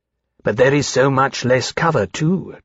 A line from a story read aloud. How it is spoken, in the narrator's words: Temeraire said